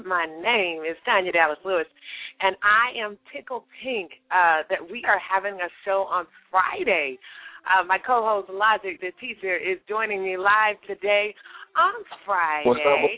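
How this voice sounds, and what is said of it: Scratchy voice. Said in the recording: “my voice sounds just a little bit scratchy ... I just get to have a different voice tonight ... You can have the scratchy voice.”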